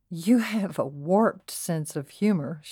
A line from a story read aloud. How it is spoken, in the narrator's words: she said with a chuckle